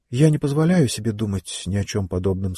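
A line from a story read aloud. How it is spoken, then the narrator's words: Plain. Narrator (Russian): сказала она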